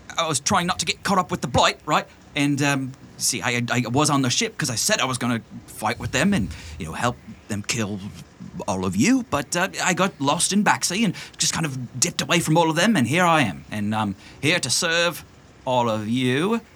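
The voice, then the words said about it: Character voice like a British schoolboy. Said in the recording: “It's way too old ... You still sound like Harry Potter”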